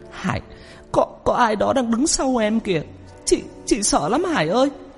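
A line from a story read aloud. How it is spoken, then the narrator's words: Tearful, frightened. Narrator (Vietnamese): Chị nói trong nước mắt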